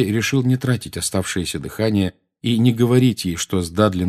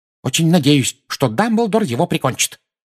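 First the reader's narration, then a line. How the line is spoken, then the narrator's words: Furious exclamation. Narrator (Russian): яростно воскликнула миссис Фиг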